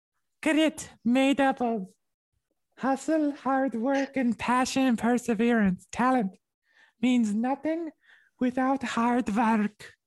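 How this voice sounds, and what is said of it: Put-on Dutch girl accent. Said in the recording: “Can you read them all in a Dutch girl accent?”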